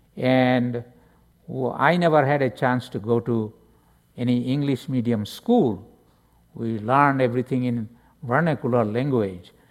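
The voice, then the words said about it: Non-native accented English. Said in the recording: “my English will be baby English, and my accent will be different”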